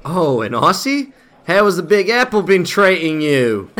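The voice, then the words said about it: Poor attempt at Australian accent. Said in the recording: “That's supposed to be Australian? That was terrible.”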